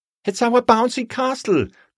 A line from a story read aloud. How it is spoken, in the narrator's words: cried Lizzie